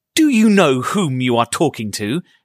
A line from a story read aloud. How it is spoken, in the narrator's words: he asked, raising his voice